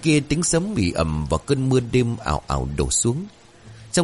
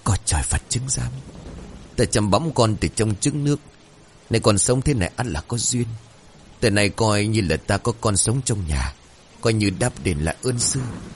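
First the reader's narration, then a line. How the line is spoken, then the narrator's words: Murmured prayer. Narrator (Vietnamese): Ông Khán bây giờ lẩm bẩm khấn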